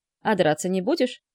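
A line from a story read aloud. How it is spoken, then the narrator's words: Scoffing snort. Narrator (Russian): хмыкнул Франсуа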